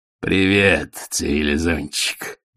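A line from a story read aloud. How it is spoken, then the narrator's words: Growled. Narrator (Russian): прорычал он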